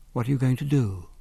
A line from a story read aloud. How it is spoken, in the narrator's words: whispered